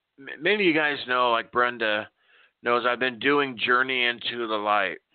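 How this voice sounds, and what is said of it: Emotional, choked-up voice. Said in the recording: “I'm not supposed to get emotional here.”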